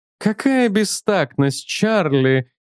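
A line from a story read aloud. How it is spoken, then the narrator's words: Sad. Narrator (Russian): печально произнес Тейлор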